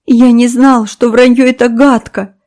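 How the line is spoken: Sobbing. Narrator (Russian): всхлипывал

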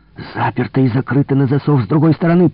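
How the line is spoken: Growl. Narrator (Russian): прорычал

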